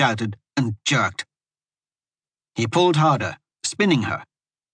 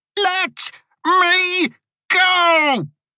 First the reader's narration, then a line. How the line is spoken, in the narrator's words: she screamed